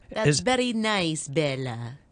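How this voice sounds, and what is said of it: Put-on Italian accent. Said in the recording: “my attempt for an Italian accent”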